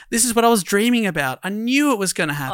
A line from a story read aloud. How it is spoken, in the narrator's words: said excitedly